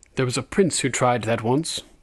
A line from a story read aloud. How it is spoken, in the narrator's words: said Tyrion dryly